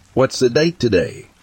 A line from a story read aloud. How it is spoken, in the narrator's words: I asked him